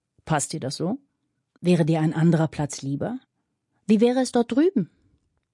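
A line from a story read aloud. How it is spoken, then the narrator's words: Asked very calmly. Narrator (German): fragte Fanny ganz ruhig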